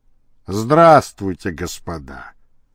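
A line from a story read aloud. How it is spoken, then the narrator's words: Dejected. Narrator (Russian): сказал он уныло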